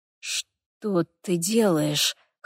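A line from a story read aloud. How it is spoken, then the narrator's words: Hoarse. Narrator (Russian): хрипло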